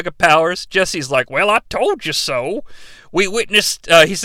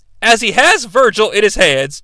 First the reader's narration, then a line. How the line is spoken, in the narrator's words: Jesse yells